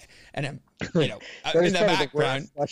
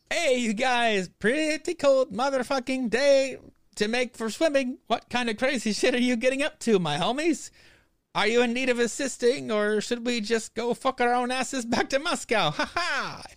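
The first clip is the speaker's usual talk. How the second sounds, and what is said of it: Bad put-on Russian accent. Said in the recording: “worst Russian accent I've ever heard ... It was probably the worst Russian accent I've ever heard.”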